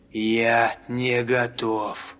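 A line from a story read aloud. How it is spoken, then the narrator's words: Grumble. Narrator (Russian): пробурчал Гаррет Стронг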